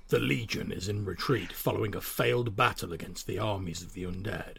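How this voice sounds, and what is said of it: Dramatic reading voice. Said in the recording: “in my best sort of dramatic voice”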